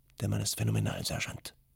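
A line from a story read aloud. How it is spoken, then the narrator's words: Whispered. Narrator (German): flüsterte Granitola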